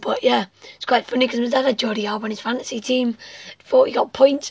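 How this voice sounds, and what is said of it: Hoarse, worn-out voice. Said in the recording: “as you guys can probably tell, my voice is still going. Still not recovered from the England Germany game.”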